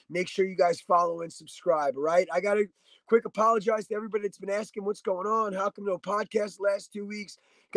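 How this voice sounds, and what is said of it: Congested, sick-sounding voice. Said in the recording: “as you might be able to hear it in my voice,... I got hit with a sinus infection”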